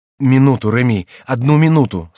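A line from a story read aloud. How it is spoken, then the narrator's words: Plain. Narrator (Russian): сказала Диана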